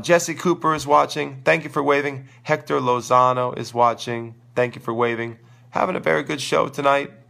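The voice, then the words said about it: Crackly, hoarse voice. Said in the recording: “I'm sorry I'm losing my voice. If my voice is a little crackly, I got sore throat.”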